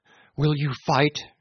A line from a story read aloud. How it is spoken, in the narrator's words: cried